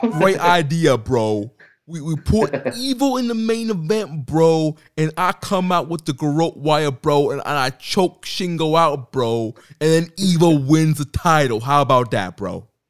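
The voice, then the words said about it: Imitates another person's voice. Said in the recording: “with a Russo accent”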